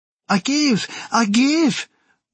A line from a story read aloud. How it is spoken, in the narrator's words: Maker wailed, struggling feverishly against my grip